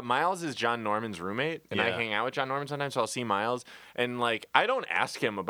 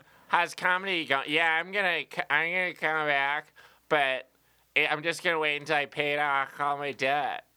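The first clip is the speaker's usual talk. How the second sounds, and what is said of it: Imitates another person's voice. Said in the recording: “That's a really good impression... That's not a bad impression... That sounds pretty close.”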